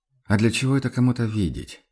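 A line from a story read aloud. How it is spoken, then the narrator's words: Quiet objection. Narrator (Russian): все так же тихо возразил Курт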